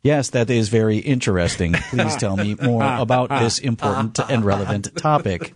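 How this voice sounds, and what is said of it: Robotic computer-like voice. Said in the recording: “I want it to be all computer speak.”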